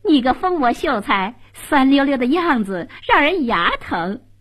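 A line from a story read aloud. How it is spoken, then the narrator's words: Bursting into laughter. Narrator (Chinese): 红娘扑哧一声笑了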